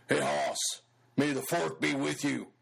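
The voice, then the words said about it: Imitates another person's voice. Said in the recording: “my best Big Daddy impression ... Does that sound anything like Jay?”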